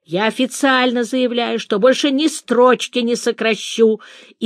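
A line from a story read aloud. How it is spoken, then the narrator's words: Hysterical female shouting. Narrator (Russian): истерически кричал в ответ женский голос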